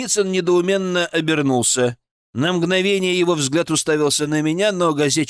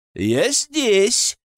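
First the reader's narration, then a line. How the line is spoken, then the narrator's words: Cheerful, smiling. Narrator (Russian): весело улыбнулся я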